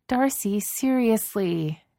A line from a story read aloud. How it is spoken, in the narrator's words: Jane groans